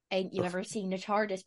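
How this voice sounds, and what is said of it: Put-on Cornish country accent. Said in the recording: “that's a Cornish accent. ... You sound like Hot Fuzz.”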